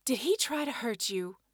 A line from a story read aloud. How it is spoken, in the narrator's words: Sam asked softly